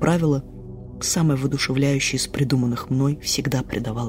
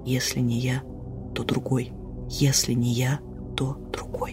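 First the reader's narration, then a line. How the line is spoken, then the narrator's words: Whispered. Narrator (Russian): я прошептала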